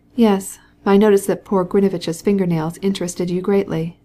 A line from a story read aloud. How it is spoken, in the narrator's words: said Stepan Arkadyevitch, laughing